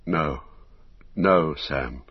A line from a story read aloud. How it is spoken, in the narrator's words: he said sadly